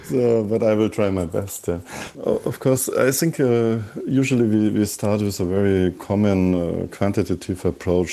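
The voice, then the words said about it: Strong German accent. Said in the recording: “my accent is, I guess, even stronger German than yours”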